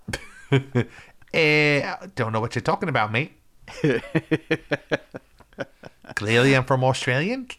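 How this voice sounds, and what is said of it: Put-on Australian accent. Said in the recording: “that motherfucker's not Australian... That guy's from fucking New Zealand... You can tell by this funny accent.”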